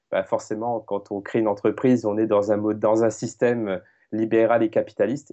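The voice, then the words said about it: Strong southern French accent. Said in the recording (French): “j'entends un petit accent ... On dirait que tu as un accent du Sud ... tu as l'accent fort”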